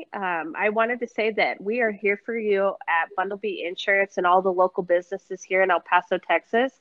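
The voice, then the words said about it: Congested, stuffy-nosed voice. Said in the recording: “Sorry if I sound like a snuffleupagus, but my allergies during the spring are horrendous.”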